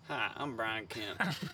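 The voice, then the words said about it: Brian Kemp impression. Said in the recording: “this Brian Kemp accent?”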